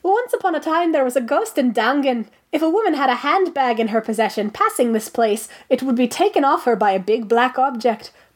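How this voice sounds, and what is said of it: Deliberately poor put-on Irish accent. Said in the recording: “I'm going to read it with my terrible Irish accent ... I can try to do an Irish child accent, but let's be honest, it's not like my Irish adult accent is any good”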